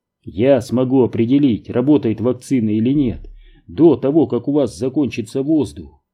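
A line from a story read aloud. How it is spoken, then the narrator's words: Plain. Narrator (Russian): напоследок сказал он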